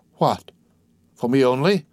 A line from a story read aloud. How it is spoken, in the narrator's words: cried Cadru